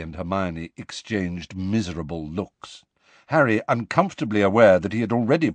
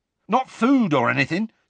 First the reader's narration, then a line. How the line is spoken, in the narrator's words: said Hagrid eagerly